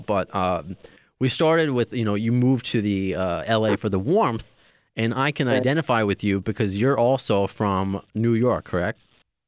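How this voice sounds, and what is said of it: New York accent. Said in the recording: “I'm a New Yorker, if you couldn't tell by my, Tony Danza accent”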